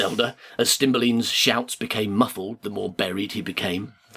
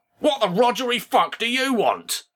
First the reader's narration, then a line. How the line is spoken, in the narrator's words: yelled the mysterious large assistant